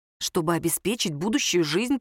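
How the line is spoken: Whisper. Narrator (Russian): прошептала Оля

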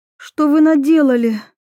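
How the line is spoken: Breathless exhale. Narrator (Russian): выдохнула Анна

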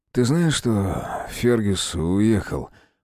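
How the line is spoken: Disbelieving mumble. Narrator (Russian): Пробормотал он так, словно не верил в свои слова

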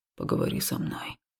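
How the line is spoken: Hoarse rasp. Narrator (Russian): прохрипел мой храмовник

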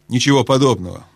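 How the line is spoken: Angry dwarf objecting. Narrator (Russian): сердито возразил гном

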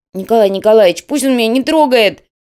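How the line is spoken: Wailing yell. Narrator (Russian): завопил тот

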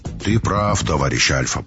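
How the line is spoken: Deep muffled rumble. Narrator (Russian): прогудел в бородищу главный техник

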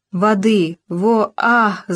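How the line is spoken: Moaning. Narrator (Russian): застонал русский

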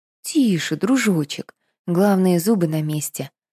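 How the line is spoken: Gentle, affectionate. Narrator (Russian): ласково сказала Катерина

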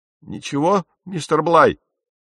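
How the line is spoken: Exclaiming. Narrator (Russian): воскликнул Персел

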